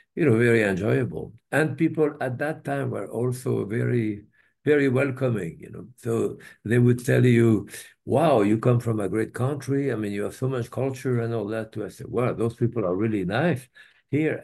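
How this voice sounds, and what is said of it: Strong French accent. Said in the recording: “As you can hear from my accent”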